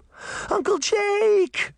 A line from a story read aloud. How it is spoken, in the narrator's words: she cried